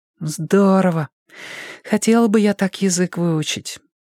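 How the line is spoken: Envious, sighing. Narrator (Russian): с завистью в голосе сказала Тома и вздохнула

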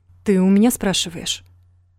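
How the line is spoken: Cold. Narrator (Russian): холодно отозвался Рома

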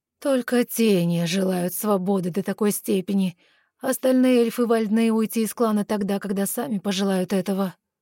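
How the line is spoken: Astonished breathless exhale. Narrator (Russian): пораженно выдохнул Вардинель

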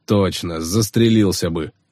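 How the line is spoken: Snorting smirk. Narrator (Russian): хмыкнул Кис

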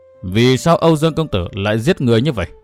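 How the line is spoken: Doubtful old woman. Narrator (Vietnamese): Thất Chỉ Bà Bà ngây người ra giây lát, sau đó nói bằng giọng điệu hoài nghi

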